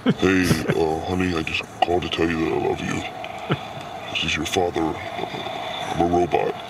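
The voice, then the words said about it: Robotic voice-changer voice. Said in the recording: “I'll use the voice changer.”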